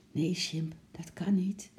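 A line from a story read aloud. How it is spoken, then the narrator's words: Soft. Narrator (Dutch): zei zacht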